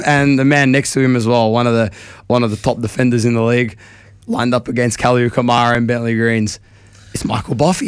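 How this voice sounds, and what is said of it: Hoarse, strained voice. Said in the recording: “My voice is cooked ... I sound like a broken trumpet”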